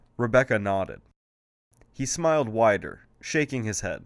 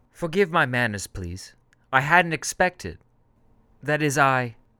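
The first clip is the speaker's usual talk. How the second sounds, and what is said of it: Clipped, polished British accent. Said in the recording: “He had a British accent, his words clipped and somehow polished.”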